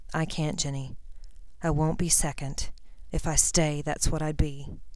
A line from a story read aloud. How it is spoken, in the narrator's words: He muttered